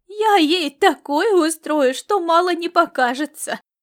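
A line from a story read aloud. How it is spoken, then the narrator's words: Promising. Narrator (Russian): пообещала она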